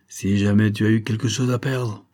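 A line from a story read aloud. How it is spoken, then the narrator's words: Grumbled. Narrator (French): grommela-t-il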